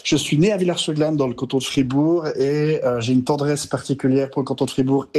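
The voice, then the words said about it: Mild Swiss Fribourg French accent. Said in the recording (French): “j'ai de l'accent suisse fribourgeois, mais j'en ai pas énormément ... pour un étranger j'ai un accent fort pour un français ... l'accent fribourgeois, c'est qu'il ressemble à l'accent vaudois”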